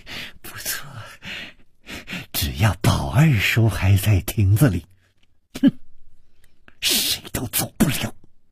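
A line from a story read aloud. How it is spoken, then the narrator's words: Malicious smile. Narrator (Chinese): 施少奶奶的嘴角也泛起了一丝恶意的微笑，说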